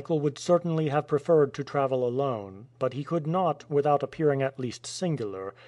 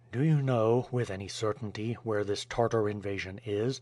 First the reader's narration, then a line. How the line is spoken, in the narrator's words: in an indifferent tone, he asked